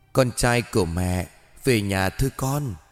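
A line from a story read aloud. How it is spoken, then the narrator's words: Loving gentle call. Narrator (Vietnamese): Bà nhìn con trai với một ánh mắt đầy ắp tình thương, khẽ gọi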